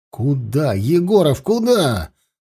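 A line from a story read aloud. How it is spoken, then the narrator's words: Shouted after someone. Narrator (Russian): запоздало выкрикнул он ему вслед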